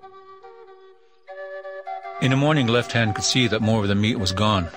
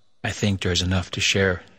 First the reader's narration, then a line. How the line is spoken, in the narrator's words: whispered